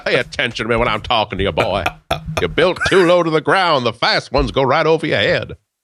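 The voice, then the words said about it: Foghorn Leghorn cartoon rooster voice. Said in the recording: “sounds like Foghorn Leghorn”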